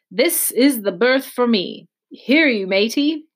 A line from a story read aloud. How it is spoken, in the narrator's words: he cried to the man who trundled the barrow